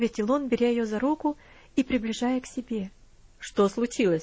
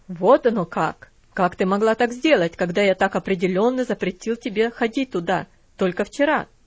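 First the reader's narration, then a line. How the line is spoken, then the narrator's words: Cold, harsh question. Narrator (Russian): спросил он холодным, жестким тоном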